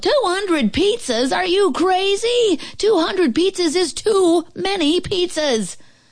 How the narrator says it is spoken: The lady at the restaurant yelled

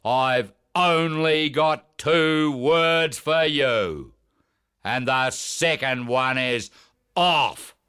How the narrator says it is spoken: The old man begins to cough, then roars

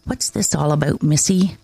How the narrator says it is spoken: asking quietly

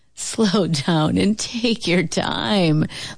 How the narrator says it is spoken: laughed Uncle Booker T

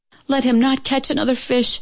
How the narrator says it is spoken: she cried to heaven

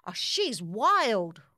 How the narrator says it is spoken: cried the batter

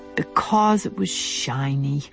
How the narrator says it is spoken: The crow, who was very young indeed, in fact only a year old, said wearily

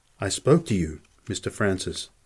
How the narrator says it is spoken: the N said softly

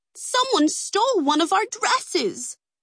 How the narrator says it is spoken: the women cried in unison

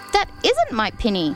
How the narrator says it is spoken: said Lucy

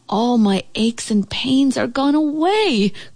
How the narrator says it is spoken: cried the old house

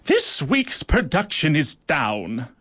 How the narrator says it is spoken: she barked

